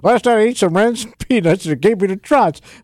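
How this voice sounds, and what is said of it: Mark Twain impression with accent. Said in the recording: “He's going to read some Mark Twain. What would it sound like if he was reading it out loud? ... What accent is that?”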